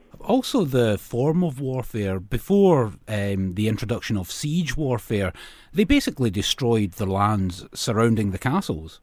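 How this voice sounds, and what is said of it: Noticeable accent, likely Scottish. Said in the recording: “I'm listening to your accent, and this is a tactic which was used by the Scots”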